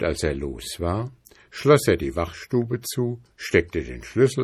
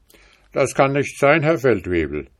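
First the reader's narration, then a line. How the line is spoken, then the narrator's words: Calling out. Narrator (German): rief der Sergeant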